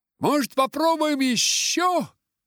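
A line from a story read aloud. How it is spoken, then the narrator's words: Shout. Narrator (Russian): крикнул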